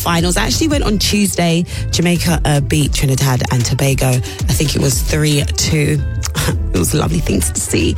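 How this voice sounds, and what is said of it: Slightly husky voice. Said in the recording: “my voice sounds a little bit husky this morning. That's because yesterday I was shouting for my life”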